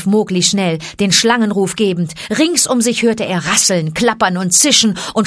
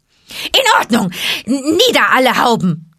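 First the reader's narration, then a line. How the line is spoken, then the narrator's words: Several voices hissing. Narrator (German): zischte ein halbes Dutzend Stimmen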